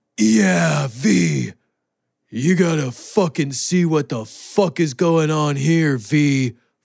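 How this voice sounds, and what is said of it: Imitates another person's voice. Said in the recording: “Keanu Reeves, the worst fucking actor on earth, being like ... Good impression.”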